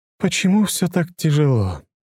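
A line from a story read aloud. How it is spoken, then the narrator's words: Sighing. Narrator (Russian): вздохнула Лиза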